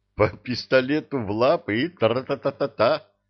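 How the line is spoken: Laughing. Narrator (Russian): засмеялся Молотков

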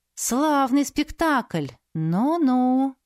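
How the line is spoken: Drawl. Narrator (Russian): протянула Саяри

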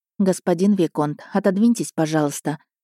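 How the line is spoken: Calm request. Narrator (Russian): спокойным голосом озвучила просьбу

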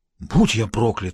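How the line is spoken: Breathless choir member. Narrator (Russian): выдохнул член церковного хора

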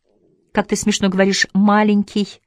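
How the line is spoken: Laughing. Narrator (Russian): смеялась Ася

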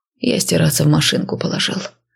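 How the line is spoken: Hoarse reply. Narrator (Russian): хрипло отозвался

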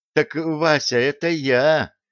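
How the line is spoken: Miserable voice. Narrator (Russian): несчастным голосом сказал Драгобич

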